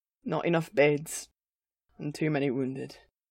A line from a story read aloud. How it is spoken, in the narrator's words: Gimli replied, the deep rumble of his voice even deeper than usual with exhaustion